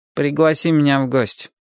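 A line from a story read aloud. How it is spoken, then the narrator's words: Gloomy suggestion. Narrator (Russian): мрачно предлагает Фредди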